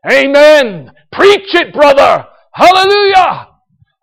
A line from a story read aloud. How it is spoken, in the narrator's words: They started to shout out